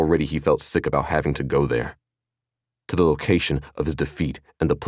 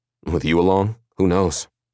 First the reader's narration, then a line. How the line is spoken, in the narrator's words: His tone was harsher than he'd intended